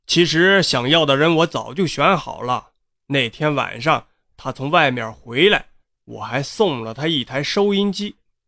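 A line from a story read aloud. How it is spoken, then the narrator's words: Cold. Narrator (Chinese): 他冷冷地说道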